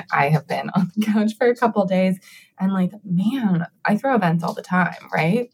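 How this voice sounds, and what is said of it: Slightly off, sick-sounding voice. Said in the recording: “My voice is a little off today. I apologize. I've been sick.”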